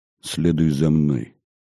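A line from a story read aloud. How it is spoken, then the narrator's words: Quiet. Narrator (Russian): Митрополит же тихо произнес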